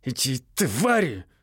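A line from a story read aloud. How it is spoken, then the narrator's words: Through gritted teeth. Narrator (Russian): произнес он сквозь зубы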